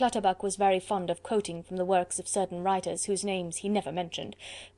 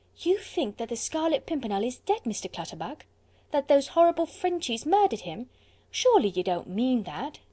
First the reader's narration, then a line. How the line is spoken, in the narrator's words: sighed Mistress Polly ruefully